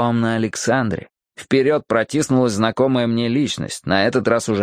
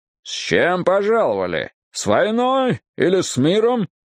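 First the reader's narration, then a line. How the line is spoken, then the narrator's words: Menacing question. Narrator (Russian): Маквей грозно так поинтересовался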